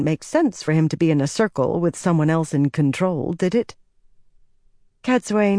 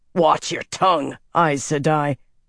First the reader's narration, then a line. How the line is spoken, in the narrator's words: Tam snarled